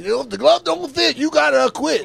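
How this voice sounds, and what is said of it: Preacher-style imitated character voice. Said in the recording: “the Rochester voice ... Like a preacher. ... It was not Johnny Cochran's voice.”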